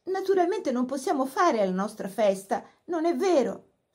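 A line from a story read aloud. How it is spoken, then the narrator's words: Pleading. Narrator (Italian): supplicò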